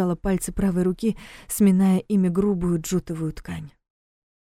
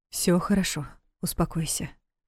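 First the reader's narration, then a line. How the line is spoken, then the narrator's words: Gentle husband's command. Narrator (Russian): мягко велел муж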